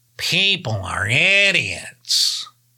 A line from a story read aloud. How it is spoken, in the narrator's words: grumbled from the back seat